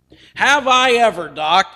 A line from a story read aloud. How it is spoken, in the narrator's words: the man said excitedly